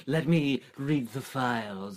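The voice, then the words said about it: Poor Anthony Hopkins impression. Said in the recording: “terrible Anthony Hopkins impression”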